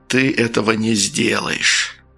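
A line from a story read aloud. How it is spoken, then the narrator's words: Warm intimate whisper. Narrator (Russian): задушевно прошептал Френ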